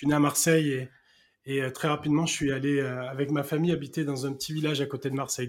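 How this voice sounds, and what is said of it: Southern French Marseille accent. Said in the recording (French): “tu as un accent aussi comme moi ... sud-ouest, plutôt sud-est, moi”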